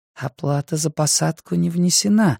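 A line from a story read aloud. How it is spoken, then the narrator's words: Uncertain reply. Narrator (Russian): неуверенно прозвучало в ответ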